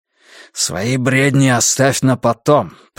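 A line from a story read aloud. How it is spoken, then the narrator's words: Hissing. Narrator (Russian): прошипел он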